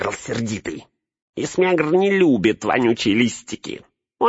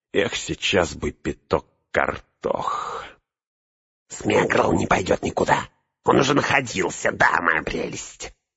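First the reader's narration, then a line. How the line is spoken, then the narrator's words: Hissed. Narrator (Russian): прошипел Горлум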